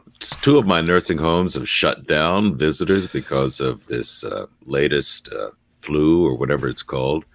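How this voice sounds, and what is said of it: Hoarse, raspy voice from a cold. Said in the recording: “I've got a cold. ... I sound like I've been smoking packs of Camels all night long”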